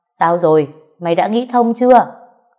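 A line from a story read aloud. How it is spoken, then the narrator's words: Loud, booming. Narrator (Vietnamese): cô đã oang oang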